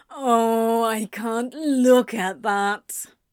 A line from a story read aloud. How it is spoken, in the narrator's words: Crowley groaned